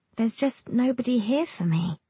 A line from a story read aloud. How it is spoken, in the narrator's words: she says and sighs dramatically